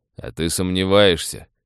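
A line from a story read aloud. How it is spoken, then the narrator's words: Snort. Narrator (Russian): хмыкнул Гуннер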